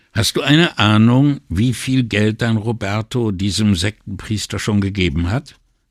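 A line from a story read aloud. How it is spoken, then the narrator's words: Plain. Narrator (German): fragte Brunetti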